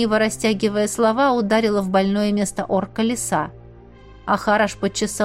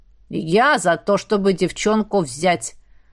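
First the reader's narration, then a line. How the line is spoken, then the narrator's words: Deep bass voice. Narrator (Russian): пробасила Хараш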